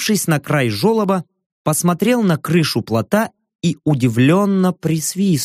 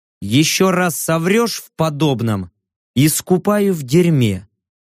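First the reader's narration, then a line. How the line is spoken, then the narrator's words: Even, flat voice. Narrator (Russian): ровным голосом произнес я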